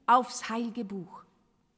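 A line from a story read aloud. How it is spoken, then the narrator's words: Stern barking. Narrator (German): herrschte Enoch streng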